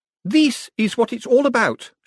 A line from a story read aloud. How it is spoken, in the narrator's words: she announced triumphantly